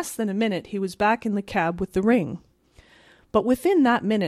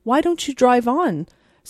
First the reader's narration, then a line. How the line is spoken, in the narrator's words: said Miss Lantry impatiently